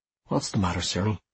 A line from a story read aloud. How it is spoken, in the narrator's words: he asked me quietly